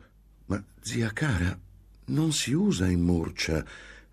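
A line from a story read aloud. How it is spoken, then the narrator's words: Gentle reply. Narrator (Italian): replicò dolcemente Antonia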